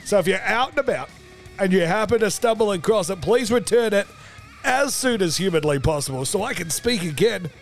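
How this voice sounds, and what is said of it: Strained, nearly lost voice. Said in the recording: “As you can tell by my voice, I have misplaced the Ferme because it would not sound like this if I still had one”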